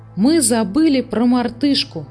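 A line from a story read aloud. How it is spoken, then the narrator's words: Exclaimed. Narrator (Russian): воскликнул он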